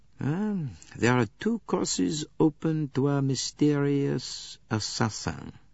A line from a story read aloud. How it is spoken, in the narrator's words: said Poirot slowly